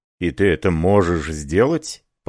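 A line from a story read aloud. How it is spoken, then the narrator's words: Surprised mutter. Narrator (Russian): пробормотал Ракен с заметным удивлением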